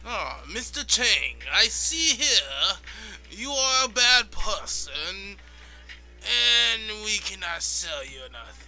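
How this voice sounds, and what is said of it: Badly done put-on foreign accent. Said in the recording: “That accent was abysmal ... abysmal and hateful”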